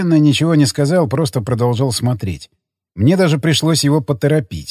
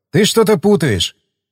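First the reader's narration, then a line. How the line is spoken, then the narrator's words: Snort, then speech. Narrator (Russian): Я хмыкнул, потом сказал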